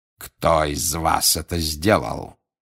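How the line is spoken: Growl. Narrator (Russian): зарычал он

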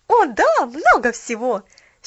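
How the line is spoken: Happy exclamation. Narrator (Russian): счастливо воскликнула Поллианна

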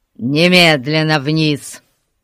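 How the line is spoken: Growling, recovering himself. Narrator (Russian): прорычал он, приходя в себя

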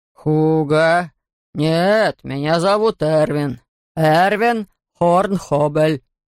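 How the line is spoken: Booming male voice. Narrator (Russian): прогудел мужчина

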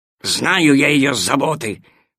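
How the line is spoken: Growling dog. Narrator (Russian): прорычал пес Тило

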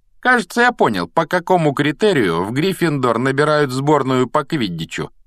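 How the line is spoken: Loud declaration. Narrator (Russian): громко заявил Малфой

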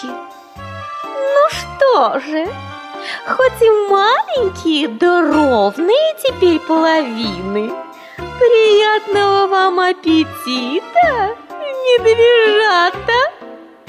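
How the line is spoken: Laughing. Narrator (Russian): Засмеялась лисица

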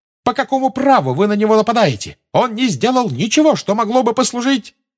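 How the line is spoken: Shrieking in unison. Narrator (Russian): Гермиона, Парвати и Лаванда дружно завизжали

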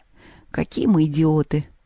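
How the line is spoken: Sad. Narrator (Russian): печально сказал Антоха

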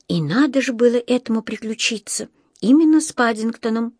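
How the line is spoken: Sighing. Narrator (Russian): вздохнула Джуди

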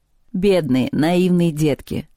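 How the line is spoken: Giggling captive. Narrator (Russian): сказала пленница и хихикнула

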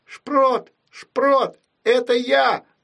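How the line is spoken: Shouted. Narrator (Russian): закричала

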